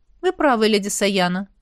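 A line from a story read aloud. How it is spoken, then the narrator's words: Calm. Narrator (Russian): спокойно кивнул князь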